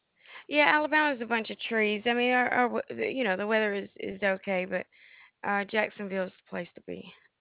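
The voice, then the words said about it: Southern US accent. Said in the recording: “I hear a southern accent”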